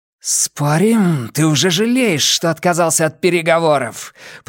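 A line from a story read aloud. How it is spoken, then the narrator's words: Growled. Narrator (Russian): прорычала Нина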